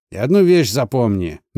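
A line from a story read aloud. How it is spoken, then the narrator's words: Rude, curt farewell. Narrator (Russian): грубо бросил он на прощание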